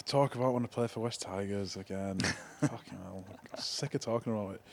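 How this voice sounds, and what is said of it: Strong Oldham English accent. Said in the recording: “my strong Oldham accent”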